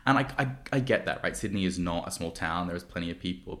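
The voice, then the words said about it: Australian accent. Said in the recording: “if you haven't heard my janky accent, I'm from Australia, I'm from Sydney.”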